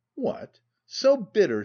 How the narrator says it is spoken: exclaimed, laughingly

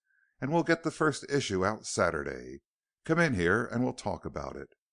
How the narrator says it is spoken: calmly announced Hollis

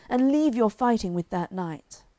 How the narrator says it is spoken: cried Sir Launcelot aloud

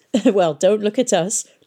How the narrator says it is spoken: laughed Pomeroy

